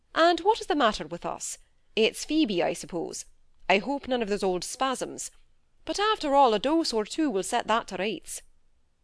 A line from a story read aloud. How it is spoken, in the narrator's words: said he, coming in cheerfully